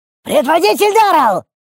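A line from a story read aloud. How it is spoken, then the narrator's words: Piercing grating squeal. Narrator (Russian): Буквально скрежетнув железом по стеклу, пронзительно взвизгнул мелкий имп-щитовод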